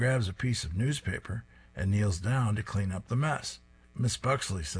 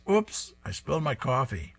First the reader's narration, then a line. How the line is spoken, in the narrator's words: She cries